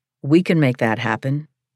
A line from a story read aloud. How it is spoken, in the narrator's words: he answered, boldly